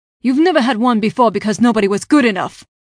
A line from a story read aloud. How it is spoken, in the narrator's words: Prince Darren spat